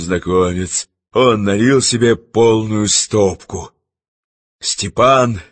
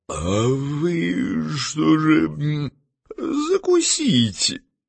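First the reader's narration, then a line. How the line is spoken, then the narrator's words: Forced out. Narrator (Russian): Степа выдавил из себя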